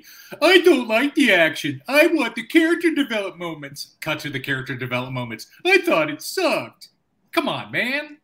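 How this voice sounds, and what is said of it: Homer Simpson-like impression of co-host. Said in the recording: “my opening impersonation of Anthony ... It was Homer Simpson and part ... It's sort of like Homer Simpson, but not.”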